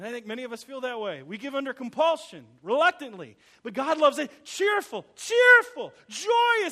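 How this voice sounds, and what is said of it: Usual voice. Nothing is said of it.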